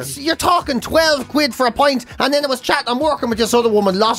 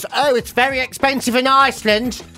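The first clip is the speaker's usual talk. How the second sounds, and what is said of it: Put-on English accent. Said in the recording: “she doesn't talk like this at all. She's actually quite posh. ... only English accent I can do.”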